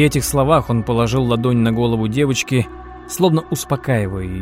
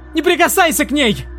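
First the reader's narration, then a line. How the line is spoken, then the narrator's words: Shouted. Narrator (Russian): выкрикнула Анна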